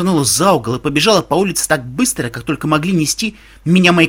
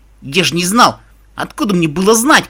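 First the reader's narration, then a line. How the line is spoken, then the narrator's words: Shouting. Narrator (Russian): кричал Каламити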